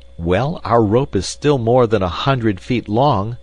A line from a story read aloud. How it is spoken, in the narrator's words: I cried